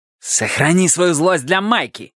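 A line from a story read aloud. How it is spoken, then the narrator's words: Barked. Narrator (Russian): рявкнул Милос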